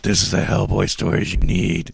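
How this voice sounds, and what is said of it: Batman-style character voice. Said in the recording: “my Batman voice”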